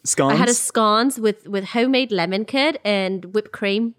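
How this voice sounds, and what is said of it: Put-on South African accent. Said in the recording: “That was my South African accent.”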